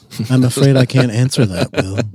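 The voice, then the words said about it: Poor impression of HAL computer voice. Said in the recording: “terrible Hal impersonation”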